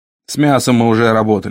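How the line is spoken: Plain. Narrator (Russian): сказал он

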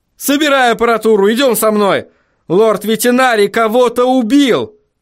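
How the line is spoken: Shouting. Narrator (Russian): крикнул Вильям

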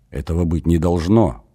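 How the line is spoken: Pale whisper. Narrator (Russian): прошептали бледные губы Куны и Мгир

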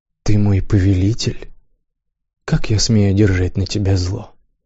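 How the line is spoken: Deep sigh. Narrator (Russian): Он глубоко вздохнул

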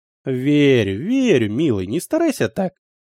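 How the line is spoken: Cooing mother. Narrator (Russian): проворковала мама

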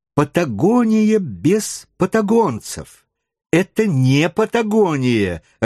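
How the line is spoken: Irritated repetition. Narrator (Russian): раздраженно повторял он

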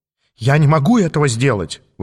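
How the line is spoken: Exclaiming. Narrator (Russian): воскликнул он

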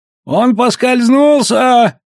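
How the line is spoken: Little horse shouting. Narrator (Russian): крикнул конечек

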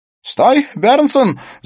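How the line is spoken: Shouting. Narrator (Russian): закричал Смит

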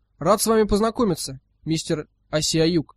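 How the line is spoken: Plain. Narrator (Russian): сказал Ирвинг

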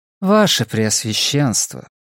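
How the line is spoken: Weary interruption. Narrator (Russian): устало перебила Ву

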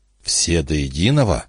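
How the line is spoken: Whispered. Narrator (Russian): прошептал Гарденер

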